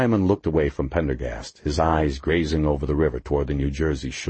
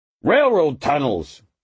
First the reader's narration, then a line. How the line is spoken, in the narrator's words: Diamond burst out irritably